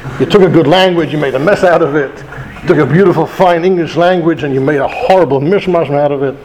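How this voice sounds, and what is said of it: British accent. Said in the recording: “you cannot get rid of your British accent, can you? No, I cannot and I will not.”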